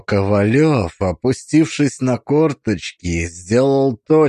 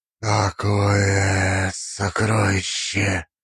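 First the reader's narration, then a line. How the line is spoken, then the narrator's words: Reverent breathless prayer-like. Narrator (Russian): выдохнул он, и слова эти прозвучали, как молитва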